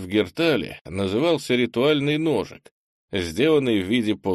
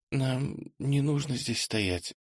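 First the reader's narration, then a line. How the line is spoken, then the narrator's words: Slightly hoarse voice. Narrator (Russian): чуть охрипшим голосом произнесла Джиса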